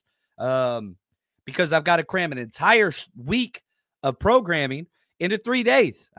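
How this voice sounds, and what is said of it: Tired, worn-out voice. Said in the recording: “I've done 5 shows today, which is ridiculous. You can hear it in my voice.”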